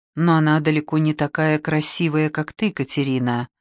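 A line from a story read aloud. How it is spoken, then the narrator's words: Quiet. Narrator (Russian): негромко добавил он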